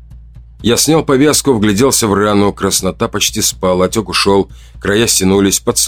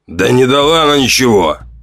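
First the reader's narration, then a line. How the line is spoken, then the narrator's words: Irritated, curt. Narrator (Russian): раздраженно бросил Ранд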